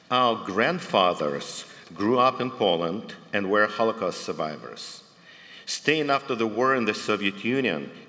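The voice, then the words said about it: Former Soviet Union accent. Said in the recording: “as you probably can tell from my accent, in the former Soviet Union”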